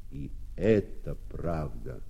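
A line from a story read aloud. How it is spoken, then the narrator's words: Plain. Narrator (Russian): опять сказали кузнецы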